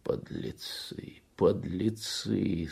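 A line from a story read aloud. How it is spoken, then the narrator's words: Moaned. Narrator (Russian): стонал Кунчинос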